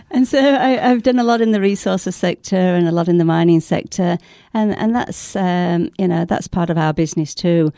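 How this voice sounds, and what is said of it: Broad West Australian accent. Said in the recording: “it's a very broad West Australian accent”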